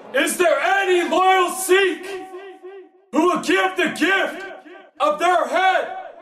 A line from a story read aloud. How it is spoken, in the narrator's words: he roared